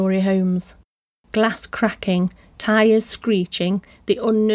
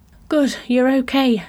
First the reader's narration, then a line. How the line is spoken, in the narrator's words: she panted